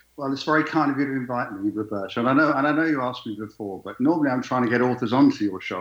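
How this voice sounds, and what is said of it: Charming British accent. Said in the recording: “you are, of course, British. You have a charming accent.”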